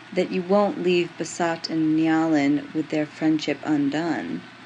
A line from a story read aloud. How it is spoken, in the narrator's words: Garrick said quietly